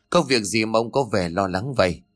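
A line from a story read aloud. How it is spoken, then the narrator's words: Stammering, bewildered. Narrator (Vietnamese): Hiếu có phần hoang mang, miệng lắp bắp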